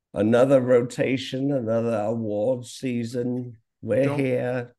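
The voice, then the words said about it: Drunken imitation of another person's voice. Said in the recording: “Don't ever do that accent again... it's the drunk version of Jinx Monsoon's Judy Garland”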